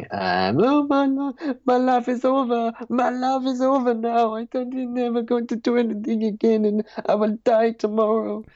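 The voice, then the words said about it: Sobbing character voice, Norman accent. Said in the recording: “you can hear kind of, like, sobbing, and every now and then there's a kind of a scream, and it's this kind of Norman accent going”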